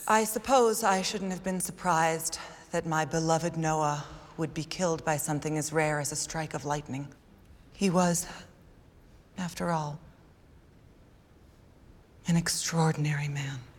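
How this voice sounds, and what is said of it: Breathy, overly dramatic put-on voice. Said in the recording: “she puts on a different voice when she's, when she's, you know, being super dramatic in the beginning. And it's so breathy and so ridiculous.”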